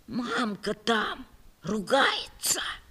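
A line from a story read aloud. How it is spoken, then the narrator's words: Frightened child's whisper. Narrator (Russian): Ванечка зашептал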